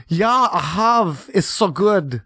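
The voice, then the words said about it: Put-on German accent. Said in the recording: “That's your German accent. That's how it sounds.”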